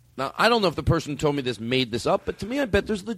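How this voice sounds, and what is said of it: Usual voice. Nothing is said of it.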